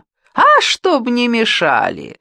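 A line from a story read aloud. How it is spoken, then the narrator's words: Cheerful laughter. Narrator (Russian): весело засмеялась Ольга Ивановна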